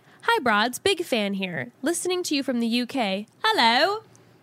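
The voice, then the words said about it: Attempted British accent. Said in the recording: “Sorry, that was as good of an accent as I could do.”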